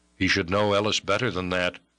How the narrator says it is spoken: grunted the man

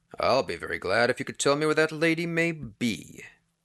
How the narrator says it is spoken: Peters answered coolly

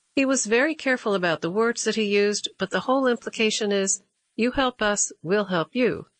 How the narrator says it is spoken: Stewart said

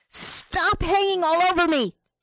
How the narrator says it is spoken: squeezed her eyes shut, and wheeled and screamed

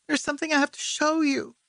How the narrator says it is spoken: he said, his voice trembling

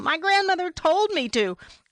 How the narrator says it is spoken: wanted to yell

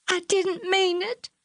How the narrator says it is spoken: she sobbed

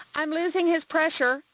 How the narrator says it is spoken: called out

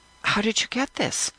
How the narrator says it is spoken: I say, as gently as I can

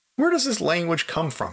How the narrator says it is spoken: I asked, still laughing

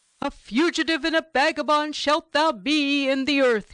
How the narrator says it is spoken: shouted out

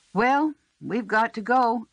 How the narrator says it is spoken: Stone called out to Narcissa

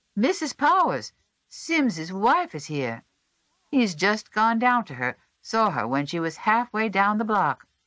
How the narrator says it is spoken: One of them, Private Hodges, who at 17 bore an empty sleeve as the badge of his patriotism, caught sight of her and called out

